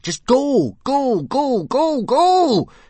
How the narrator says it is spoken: screamed Hiccup, flapping his arm up and down frantically

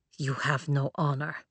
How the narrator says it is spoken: Arlid muttered

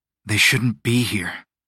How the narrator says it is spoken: Aurelio said, his voice low and gruff

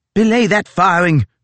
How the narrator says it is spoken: shouted Fitzjames

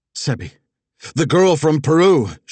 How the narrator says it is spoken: she shouted

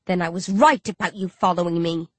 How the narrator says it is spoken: I growl

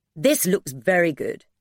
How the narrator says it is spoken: James said

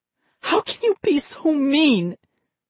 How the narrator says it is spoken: Molly wailed

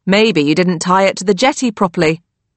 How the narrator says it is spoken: my dad says

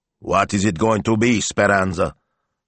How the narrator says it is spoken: grunted Signor Maestro

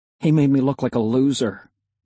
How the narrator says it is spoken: I muttered

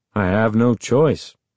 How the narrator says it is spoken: Uncle Ben said dryly

